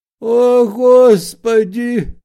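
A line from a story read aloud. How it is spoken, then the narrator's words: Toothless mumbling. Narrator (Russian): зашамкал обитатель бревенчатого домика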